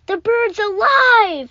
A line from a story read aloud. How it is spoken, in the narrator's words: I cried